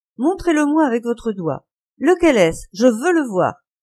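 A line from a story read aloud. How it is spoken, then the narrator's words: Exclamation. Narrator (French): s'écria-t-il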